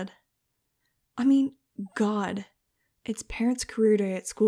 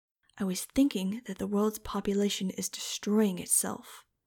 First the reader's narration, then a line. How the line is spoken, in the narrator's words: she said in a steely tone I recognized